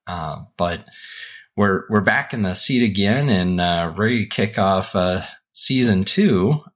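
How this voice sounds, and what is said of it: Voice altered by illness. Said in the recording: “getting over a little bit of COVID, so apologies if my voice sounds a little bit different”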